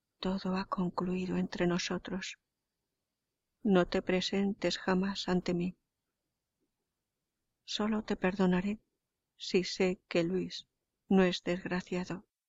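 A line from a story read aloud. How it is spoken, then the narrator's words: Barely audible voice. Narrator (Spanish): añadió con voz apenas perceptible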